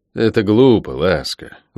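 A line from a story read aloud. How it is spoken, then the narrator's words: Sighing. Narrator (Russian): вздохнул я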